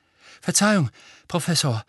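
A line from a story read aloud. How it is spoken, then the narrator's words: Panting. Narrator (German): keuchte er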